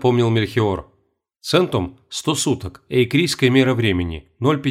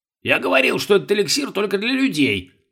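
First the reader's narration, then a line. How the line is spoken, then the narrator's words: Grumbling. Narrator (Russian): заворчал Бальтазар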